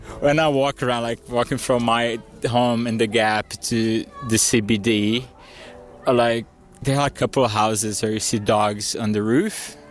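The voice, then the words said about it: Brazilian accent, often mistaken for French. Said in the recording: “the only people that can tell I'm Brazilian are Queenslanders. Even people from Alice, they'd normally think I'm French for my accent”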